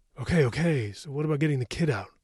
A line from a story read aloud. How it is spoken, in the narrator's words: Sam asked urgently